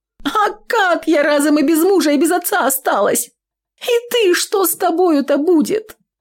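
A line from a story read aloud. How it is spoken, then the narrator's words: Choking sobs. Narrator (Russian): Нюра вновь захлебывалась, рыдала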